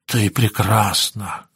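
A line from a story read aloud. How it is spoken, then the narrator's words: Whispered. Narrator (Russian): шептал он ей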